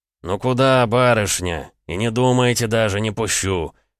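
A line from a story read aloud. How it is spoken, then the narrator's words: Good-natured deep male voice. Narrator (Russian): Добродушно пробасил один из пожарных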